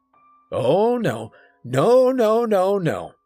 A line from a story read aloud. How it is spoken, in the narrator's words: he said loudly